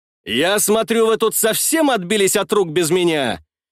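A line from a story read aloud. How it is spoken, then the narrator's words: Loud speech. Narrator (Russian): Все так же громко говорю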